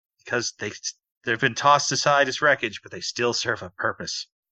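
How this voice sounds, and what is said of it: Sarcastic voice. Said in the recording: “in my sarcastic voice”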